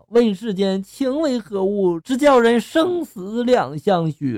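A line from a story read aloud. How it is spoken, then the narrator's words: Sighing lament. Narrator (Chinese): 还感叹着就说了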